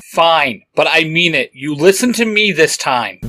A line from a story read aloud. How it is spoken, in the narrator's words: Dick barked